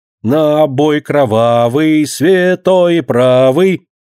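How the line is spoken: Silvery shout. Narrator (Russian): Серебристо выкрикивает она

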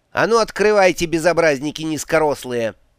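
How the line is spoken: Loud pronouncement. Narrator (Russian): громко изрекла

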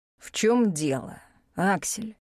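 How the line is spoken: Perfectly calm question. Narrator (Russian): Совершенно спокойно поинтересовался старший некромант

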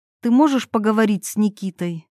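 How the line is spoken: Sighing. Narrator (Russian): Ирина вздохнула

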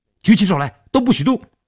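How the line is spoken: Loud shout. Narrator (Chinese): 他们三个人大喊道

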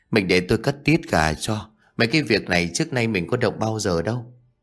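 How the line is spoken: Sighing. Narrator (Vietnamese): Hải liền thở dài rồi nói

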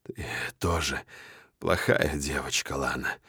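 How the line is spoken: Hoarse voice. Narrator (Russian): хрипло говорю я

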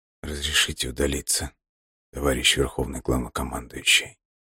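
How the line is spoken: Barely audible, ashamed. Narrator (Russian): Еле слышно спросил Алексей, не желая, чтобы его видели в таком состоянии

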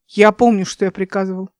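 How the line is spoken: Rude interruption. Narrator (Russian): грубо оборвал его Нейба

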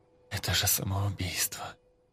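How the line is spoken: Quiet. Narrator (Russian): тихо произнес Ян

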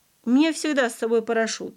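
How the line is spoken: Laughing. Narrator (Russian): рассмеялся Василий Иванович

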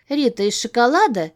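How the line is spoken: Businesslike question. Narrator (Russian): деловито поинтересовалась она

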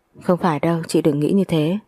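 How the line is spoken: Soft laugh. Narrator (Vietnamese): Thấy chị giận dỗi trẻ con như vậy, tôi lại khẽ cười một cái rồi nói

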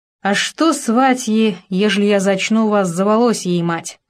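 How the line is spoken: Angry loud snuffling. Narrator (Russian): Засопел злобно и громко

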